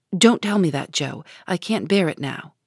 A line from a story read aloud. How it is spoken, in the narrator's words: cried out in a fierce tone